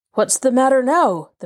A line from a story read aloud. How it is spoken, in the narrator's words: called out